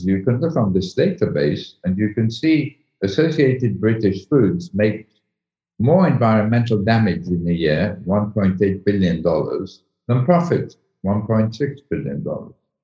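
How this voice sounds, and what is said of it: British accent. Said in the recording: “I'm British, as my accent shows.”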